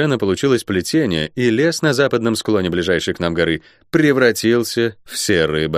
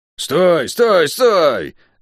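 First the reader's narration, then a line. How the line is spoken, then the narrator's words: Deafening yell. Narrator (Russian): оглушительно заорала Тиф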